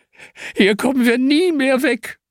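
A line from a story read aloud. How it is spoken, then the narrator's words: Whining lament. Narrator (German): jammert Hanna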